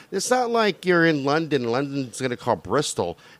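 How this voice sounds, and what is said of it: Usual voice. Nothing is said of it.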